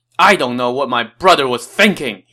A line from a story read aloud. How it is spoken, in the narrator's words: he shouted